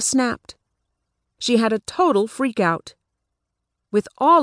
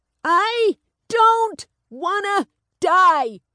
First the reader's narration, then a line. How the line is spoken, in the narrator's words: She cried out in exasperation